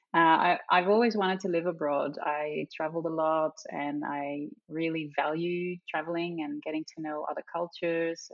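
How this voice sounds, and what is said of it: Dutch accent in English. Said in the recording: “I'm Dutch, as you probably can tell from my accent.”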